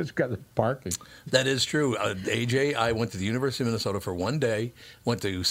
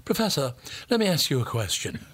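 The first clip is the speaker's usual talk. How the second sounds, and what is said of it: Put-on highbrow English accent. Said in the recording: “everybody's got an English accent... trying to sound highbrow”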